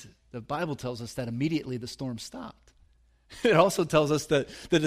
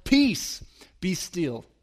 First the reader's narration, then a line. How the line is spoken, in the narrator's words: Jesus sternly stands up … he says to the storm